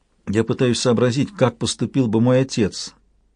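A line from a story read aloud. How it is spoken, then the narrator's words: Quiet. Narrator (Russian): тихо сказала она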